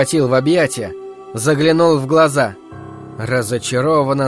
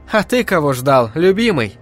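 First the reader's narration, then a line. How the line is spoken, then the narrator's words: Laughing. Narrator (Russian): рассмеялась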